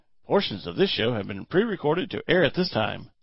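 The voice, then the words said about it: Announcer-style radio voice. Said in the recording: “Does that sound in my best radio voice? ... That's pretty good.”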